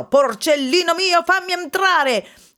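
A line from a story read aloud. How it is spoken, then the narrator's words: Shouted, wolf. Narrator (Italian): il lupo gridò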